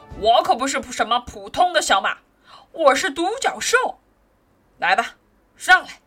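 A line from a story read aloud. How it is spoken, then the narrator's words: Cold reply. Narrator (Chinese): 他冷冷的回答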